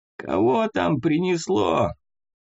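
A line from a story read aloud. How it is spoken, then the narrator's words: Hoarse old voice. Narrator (Russian): Раздался, наконец, хриплый старческий голос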